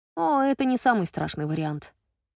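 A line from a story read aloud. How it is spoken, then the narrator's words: Sighing. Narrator (Russian): вздохнула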